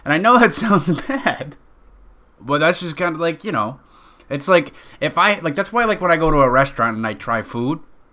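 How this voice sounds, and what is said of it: Loud, near-screaming speech. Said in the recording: “God, I'm screaming.”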